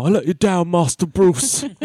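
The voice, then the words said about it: Half Brooklyn, half British accent. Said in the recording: “he's like got this like half Brooklyn, half like fucking British accent. It's very weird”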